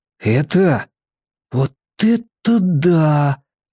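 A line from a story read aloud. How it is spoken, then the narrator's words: Breathless exhale. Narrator (Russian): выдохнул Мак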